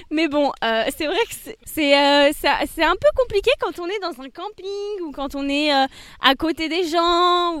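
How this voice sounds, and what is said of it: English accent speaking French. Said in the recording (French): “désolé pour mon accent anglais”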